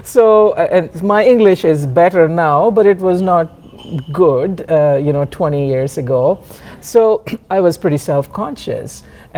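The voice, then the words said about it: Slight Indian English accent. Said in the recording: “I have a little Slumdog Millionaire accent.”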